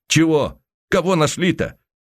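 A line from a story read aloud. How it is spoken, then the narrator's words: Contemptuous snort. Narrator (Russian): презрительно фыркнул толстыми губами Михеев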